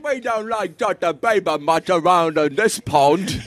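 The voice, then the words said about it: Mumbled put-on English accent. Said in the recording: “Your English accent sounds like you have marbles in your mouth.”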